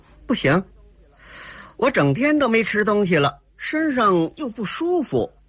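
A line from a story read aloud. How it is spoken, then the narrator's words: Laughing. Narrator (Chinese): 黑衣姑娘哈哈一笑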